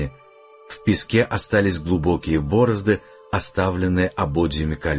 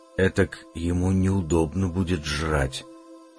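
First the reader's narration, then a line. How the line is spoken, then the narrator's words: Teenage boy's whisper. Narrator (Russian): прошептал парнишка лет 16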